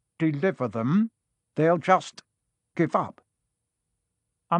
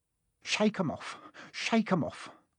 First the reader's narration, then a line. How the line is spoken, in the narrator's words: he would mutter